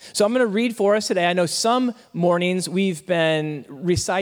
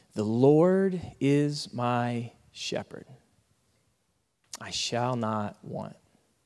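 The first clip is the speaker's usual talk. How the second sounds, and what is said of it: Slow, deliberate reading. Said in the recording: “going to read it slower than normal”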